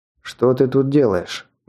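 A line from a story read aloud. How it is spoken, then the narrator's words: Rude question. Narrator (Russian): грубо спросил я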